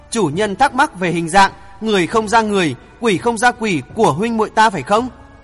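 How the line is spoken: Pained smiling tone. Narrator (Vietnamese): Bạch Yêu mỉm cười đau khổ nói

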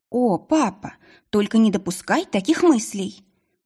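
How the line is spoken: Shocked exclamation. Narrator (Russian): воскликнула потрясенная Маргарет

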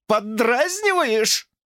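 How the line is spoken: Wailing. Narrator (Russian): взвыла она

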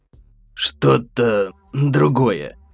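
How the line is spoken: Hoarse reply. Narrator (Russian): хрипло ответил он

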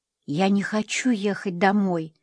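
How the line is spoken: Whisper. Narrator (Russian): прошептала она Эдвине

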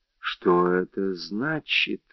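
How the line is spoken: Amazed whisper. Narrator (Russian): прошептал повторяя с изумлением

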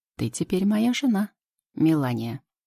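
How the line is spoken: Calm reply. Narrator (Russian): спокойно отвечает Идрис

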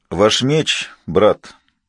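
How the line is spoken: Quiet. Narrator (Russian): сказал Хентас Мустор все так же негромко

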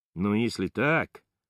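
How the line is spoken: Stunned mumble. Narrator (Russian): бормочу огорошенно

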